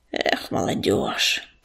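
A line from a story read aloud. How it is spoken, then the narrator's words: Grumbling. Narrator (Russian): пробурчал он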